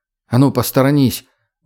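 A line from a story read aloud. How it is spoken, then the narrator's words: Gruff mutter. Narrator (Russian): буркнул Люк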